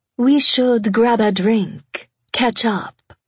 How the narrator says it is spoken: the mahogany-haired beauty suggested in her syrupy sweet French accent

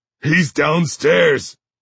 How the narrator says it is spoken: After he catches his breath, and between sobs, he says

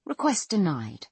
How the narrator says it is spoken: Fry says in the same calm tone

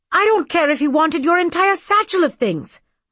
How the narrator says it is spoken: my father snapped

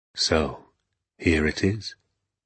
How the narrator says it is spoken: he said, and now suddenly his voice became soft and whispery and very private

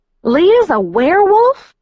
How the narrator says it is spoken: I shrieked

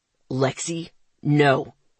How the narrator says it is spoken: he growled, his voice hard

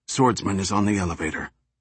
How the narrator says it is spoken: quietly, she raised her sleeve to her lips and whispered

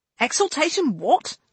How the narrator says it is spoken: Lane asked sharply

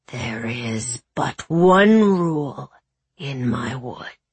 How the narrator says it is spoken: he growled

